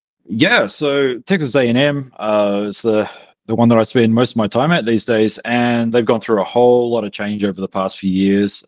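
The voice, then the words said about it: New Zealand accent. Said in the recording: “despite the New Zealand accent”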